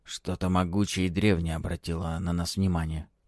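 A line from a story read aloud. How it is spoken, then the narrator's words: Quiet whisper. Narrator (Russian): тихо шепчет Зилтон своему напарнику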